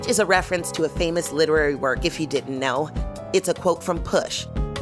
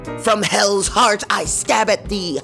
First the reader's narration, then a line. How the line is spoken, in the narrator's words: I screamed